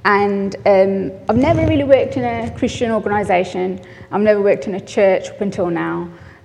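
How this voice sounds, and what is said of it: West Midlands English accent. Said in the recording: “I'm originally from the West Midlands, as you can probably tell from my accent”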